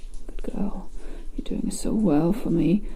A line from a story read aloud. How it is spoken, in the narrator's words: Daddy moans softly